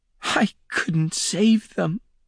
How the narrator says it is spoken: she whimpered

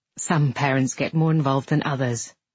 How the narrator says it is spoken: he said

